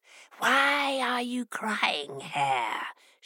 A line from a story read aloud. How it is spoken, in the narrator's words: hissed